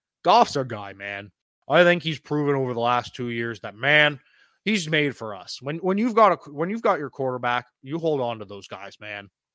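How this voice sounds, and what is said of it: Dan Campbell impression. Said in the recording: “my Dan Campbell impression.”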